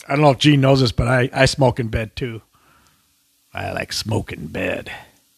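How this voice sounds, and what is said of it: Imitates another person's voice. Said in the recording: “I had to do a Joel Bushman ... That was a good impression.”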